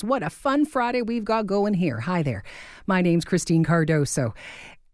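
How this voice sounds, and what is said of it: Breathless, out of breath. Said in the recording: “If I'm a little out of breath, it's because I'm a little out of breath, because I'm dancing to these songs ... I'm really out of breath.”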